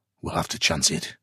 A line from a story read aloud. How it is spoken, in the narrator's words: he grunted